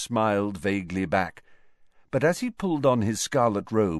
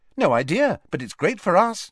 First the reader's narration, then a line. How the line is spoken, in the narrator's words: said Ginny brightly